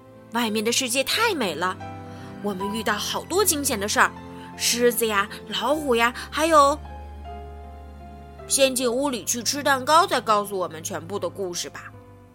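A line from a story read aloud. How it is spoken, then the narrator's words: Loud. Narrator (Chinese): 弗洛格大声说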